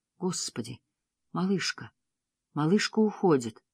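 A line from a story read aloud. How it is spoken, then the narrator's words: Strange, tender voice. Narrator (Russian): Миссионерка произнесла странным, нежным голосом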